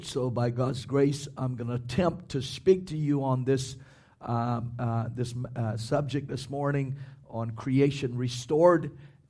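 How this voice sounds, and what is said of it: Slightly hoarse voice. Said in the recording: “I'm still a tad hoarse this morning ... if my throat gets a little too tight”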